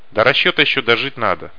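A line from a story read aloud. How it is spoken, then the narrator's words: Wry snort. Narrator (Russian): хмыкнул Факер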